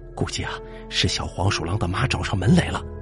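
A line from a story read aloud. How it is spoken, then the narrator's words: Frightened, low voice. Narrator (Chinese): 小梁爹吓得背后一紧，低声说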